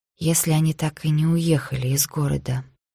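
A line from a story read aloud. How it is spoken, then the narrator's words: Quiet female voice. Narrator (Russian): тихо сказала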